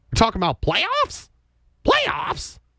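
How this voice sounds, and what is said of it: Jim Mora impression. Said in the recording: “my Jim Mora impression”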